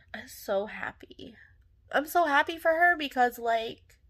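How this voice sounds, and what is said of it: Tearful, emotional crying voice. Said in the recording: “I'm getting emotional. Why am I always crying? ... why am I crying?”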